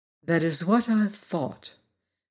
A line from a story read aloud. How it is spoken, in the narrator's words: declared Glinda calmly